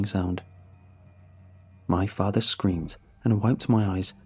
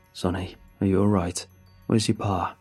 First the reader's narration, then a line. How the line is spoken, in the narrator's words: he asked in his tired voice